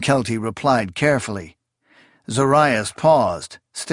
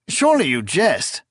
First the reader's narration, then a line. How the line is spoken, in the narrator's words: Confis cried